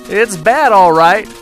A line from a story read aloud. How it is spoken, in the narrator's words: Joe yelled to Jack